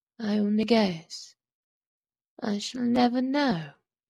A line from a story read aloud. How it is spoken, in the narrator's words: answered slowly in her cracked little voice